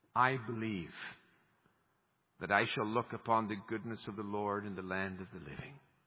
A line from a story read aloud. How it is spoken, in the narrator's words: he then sighs